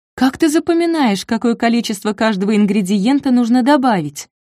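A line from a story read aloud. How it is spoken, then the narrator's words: Plain question. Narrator (Russian): спросила Нина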